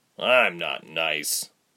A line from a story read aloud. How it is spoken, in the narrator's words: the soldier muttered